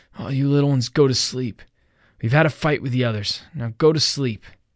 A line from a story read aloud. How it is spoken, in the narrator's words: Ralph called out in a quavering voice